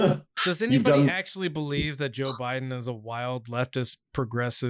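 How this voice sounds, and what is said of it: Usual voice. Nothing is said of it.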